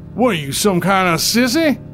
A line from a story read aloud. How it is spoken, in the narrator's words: he bellowed